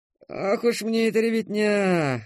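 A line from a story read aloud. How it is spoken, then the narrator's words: Grumbling. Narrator (Russian): ворчал полисмен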